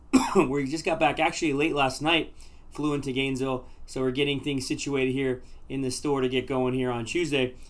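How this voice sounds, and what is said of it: Slightly hoarse voice. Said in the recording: “You may hear it in my voice today. I might be a little bit hoarse.”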